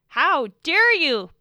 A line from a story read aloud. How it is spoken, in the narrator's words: Blue shouted, hot-headed with rage